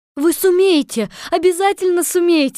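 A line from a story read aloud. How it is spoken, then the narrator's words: Joyful cry. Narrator (Russian): радостно вскрикнула Элли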